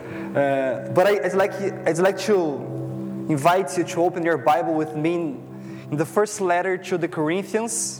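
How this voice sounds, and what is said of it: Strong foreign accent. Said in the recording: “sorry about my strong accent”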